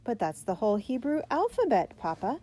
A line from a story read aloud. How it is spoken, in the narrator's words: she exclaimed in surprise